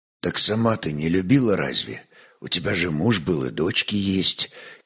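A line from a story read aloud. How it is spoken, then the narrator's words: Quiet question. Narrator (Russian): тихо спросил Ольг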